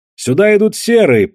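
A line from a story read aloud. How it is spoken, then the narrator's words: Shouting. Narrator (Russian): прокричал кто-то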